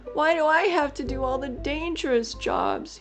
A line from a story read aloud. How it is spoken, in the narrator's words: he whined